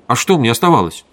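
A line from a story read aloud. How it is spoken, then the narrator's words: Angry objection. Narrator (Russian): сердито возразил венерианин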